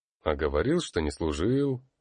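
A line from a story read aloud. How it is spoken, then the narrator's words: Wry snort. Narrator (Russian): хмыкнул Наутидор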